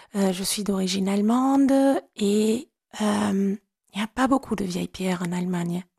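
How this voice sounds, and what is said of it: German accent speaking French. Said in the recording (French): “comme vous avez certainement entendu, j'ai un accent allemand”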